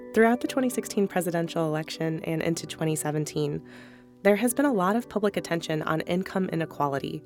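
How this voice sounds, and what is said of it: Hoarse, congested voice from a cold. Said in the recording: “excuse my voice this week. I'm getting over a cold.”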